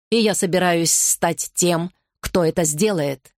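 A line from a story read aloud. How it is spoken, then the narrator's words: Growl. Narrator (Russian): прорычал Гарри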